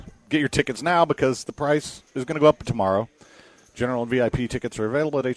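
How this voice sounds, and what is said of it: Usual voice. Nothing is said of it.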